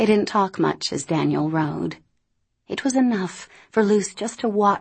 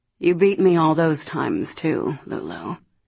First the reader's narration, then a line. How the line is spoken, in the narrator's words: tenderly and said